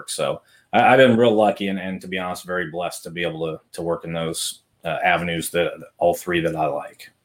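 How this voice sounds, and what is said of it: Polished radio-announcer voice. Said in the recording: “you definitely have the radio voice ... you've got that radio personality”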